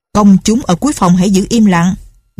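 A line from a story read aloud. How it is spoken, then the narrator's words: Stern shout. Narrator (Vietnamese): viên mỏ tòa quát lên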